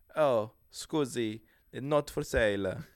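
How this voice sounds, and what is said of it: Put-on Italian accent. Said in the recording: “pretty decent Italian accent.”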